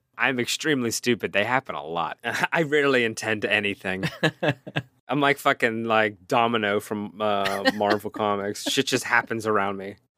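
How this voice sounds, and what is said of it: Pittsburgh accent. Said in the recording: “my ridiculous Pittsburgh accent”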